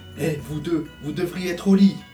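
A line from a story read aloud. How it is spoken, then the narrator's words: Father scolding. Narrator (French): gronda papa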